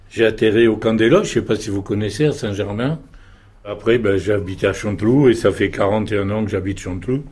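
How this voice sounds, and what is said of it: Slight Marseille French accent. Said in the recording (French): “Vous avez un petit accent. ... Moi, je suis marseillais.”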